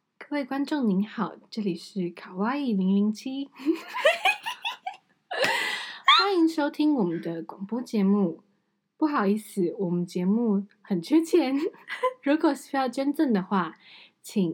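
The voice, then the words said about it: Slow, formal announcer-style voice. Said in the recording (Chinese): “反正就是这样子的声音，然后语调要慢一点”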